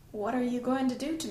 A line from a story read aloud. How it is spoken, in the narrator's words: he whispered